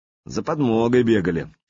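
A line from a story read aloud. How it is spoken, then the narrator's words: Grumbling. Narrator (Russian): проворчал Лунд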